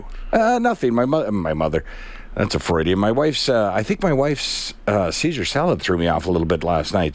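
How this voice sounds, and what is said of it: Slightly sick-sounding voice. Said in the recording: “I'm actually sick. ... You might hear it in my voice a little bit.”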